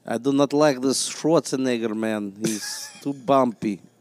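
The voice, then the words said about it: Imitated Russian-accented father's voice. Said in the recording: “make fun of my father's accent ... Could you do an impression of your father right now? ... he's Russian”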